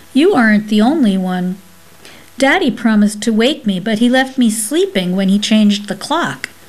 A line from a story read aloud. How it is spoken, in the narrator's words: she replied firmly